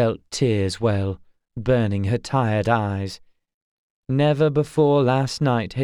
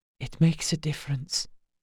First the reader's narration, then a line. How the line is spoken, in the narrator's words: whispered